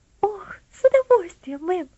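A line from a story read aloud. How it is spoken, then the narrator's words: Joyful girl's exclamation. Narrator (Russian): воскликнула девочка, и глаза ее радостно засверкали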